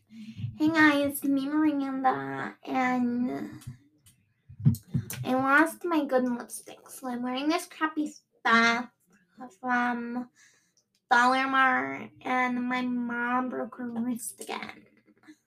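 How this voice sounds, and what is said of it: Valley Girl character voice. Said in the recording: “my Miranda impression ... That was like more Valley Girl sucky. Sucky Valley Girl.”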